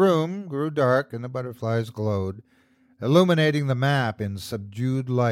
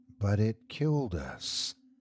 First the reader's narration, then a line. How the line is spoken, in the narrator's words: I said softly